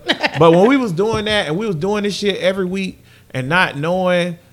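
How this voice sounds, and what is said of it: Southern accent. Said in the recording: “your accent. ... But I'm Southern.”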